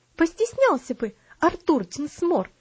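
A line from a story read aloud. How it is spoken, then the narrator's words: Indignant exclamation. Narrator (Russian): с негодованием воскликнула Луси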